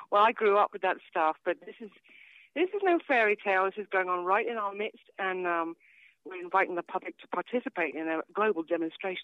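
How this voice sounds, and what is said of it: British accent. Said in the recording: “she had a British accent”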